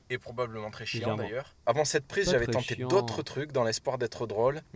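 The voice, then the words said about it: Slight accent. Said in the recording (French): “Petit accent.”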